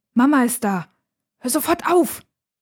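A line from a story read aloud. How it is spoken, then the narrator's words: Hissed. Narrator (German): zischt sie ihren Bruder an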